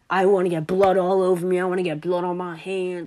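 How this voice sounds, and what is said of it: Put-on New Jersey accent. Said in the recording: “from New Jersey. Here's my accent.”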